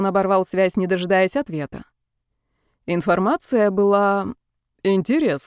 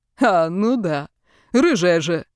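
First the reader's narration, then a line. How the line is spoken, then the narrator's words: Loud laughter. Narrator (Russian): расхохотался он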